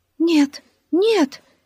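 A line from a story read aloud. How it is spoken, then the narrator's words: Frightened cry. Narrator (Russian): испуганно вскрикнула Лили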